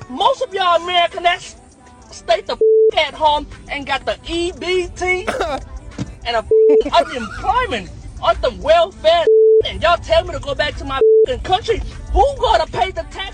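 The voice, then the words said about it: Mixed Laotian and American regional accent. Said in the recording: “That's a melting pot accent. So much going on. ... he had a little Laos. He had a little Houston. ... a little LA. Yeah. A little San Francisco. Yeah. All mixed into one right there.”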